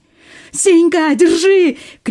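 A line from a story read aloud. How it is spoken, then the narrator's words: Shout. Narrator (Russian): крикнул Леха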